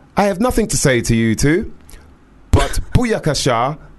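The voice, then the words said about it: Very strong posh English accent. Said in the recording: “in a very strong posh English accent”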